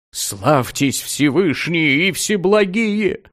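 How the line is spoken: Groaning in pain. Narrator (Russian): простонал Микол, скача на здоровой ноге и держась за прокушенную

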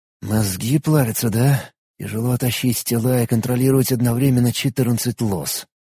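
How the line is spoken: Whispered. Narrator (Russian): прошептал

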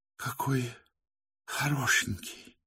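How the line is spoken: Weak smiling whisper. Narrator (Russian): слабо прошептала она с улыбкой

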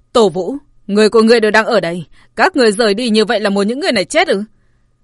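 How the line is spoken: Impatient shout. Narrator (Vietnamese): Mấy người nóng nảy, địa môn quát

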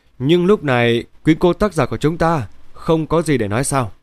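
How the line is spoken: Smiling speech. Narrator (Vietnamese): Dan mỉm cười

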